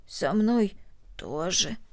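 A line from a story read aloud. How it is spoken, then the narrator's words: Hoarse reply. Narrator (Russian): хрипло ответила Корнели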